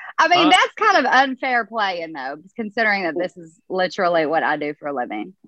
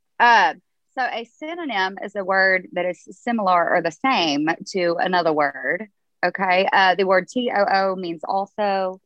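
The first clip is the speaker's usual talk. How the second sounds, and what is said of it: Teacher voice. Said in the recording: “let me get my teacher voice on.”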